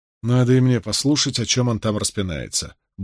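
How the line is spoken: Grumbled mutter. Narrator (Russian): буркнул Перин

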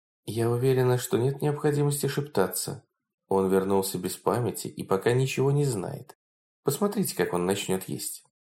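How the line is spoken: Normal, calm voice. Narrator (Russian): Принцесса ответила нормальным и спокойным голосом

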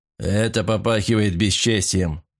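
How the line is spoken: Grumbled. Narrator (Russian): проворчал Сивица

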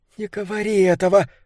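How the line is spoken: Whispered. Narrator (Russian): прошептала Триша

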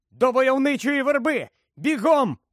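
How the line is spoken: Shouted. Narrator (Ukrainian): крикнув Гаррі

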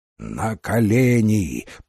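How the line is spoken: Growling. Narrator (Russian): прорычал он

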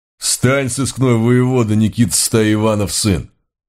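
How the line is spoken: Menacing demand. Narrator (Russian): грозно потребовал один

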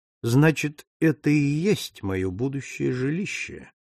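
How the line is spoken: Mutter. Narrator (Russian): пробормотал Пинкертон

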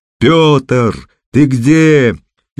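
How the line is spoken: Frantic yell. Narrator (Russian): исступленно заорал Костя

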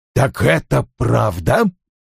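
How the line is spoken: Through clenched teeth. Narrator (Russian): Вульф процедил

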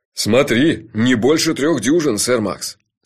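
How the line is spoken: Stern. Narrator (Russian): строго сказал мой шеф

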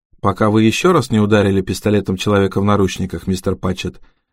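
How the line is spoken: Quiet question. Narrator (Russian): тихо спросила Харпер

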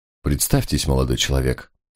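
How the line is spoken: Quiet demand. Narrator (Russian): тихо потребовал инспектор

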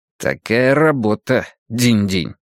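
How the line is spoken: Through clenched teeth. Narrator (Russian): процедил Драккайнен

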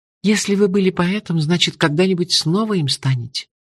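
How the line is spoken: Sigh. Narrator (Russian): вздохнула хозяйка

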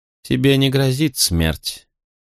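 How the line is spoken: Calm reassuring promise. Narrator (Russian): спокойно обещала она мне

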